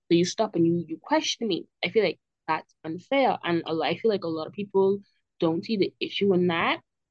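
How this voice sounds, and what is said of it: Bahamian accent. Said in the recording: “I'm a Bahamian, and you know that probably based on my accent”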